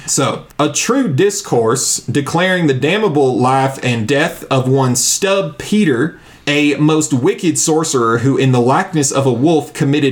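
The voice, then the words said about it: Put-on Southern accent. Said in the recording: “read this pamphlet in an accent ... it reads better in a Southern accent. It just really does. It sounds like one.”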